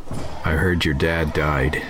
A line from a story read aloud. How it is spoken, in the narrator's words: he said